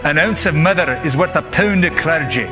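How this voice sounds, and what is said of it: Weak put-on Scottish accent. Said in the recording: “So the Scottish have a saying ... that was a lame accent”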